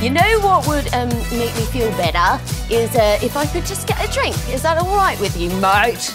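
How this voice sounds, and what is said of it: Put-on Australian accent. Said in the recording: “It's my Australian accent.”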